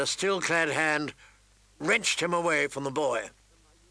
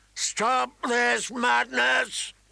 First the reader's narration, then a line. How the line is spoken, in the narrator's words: he boomed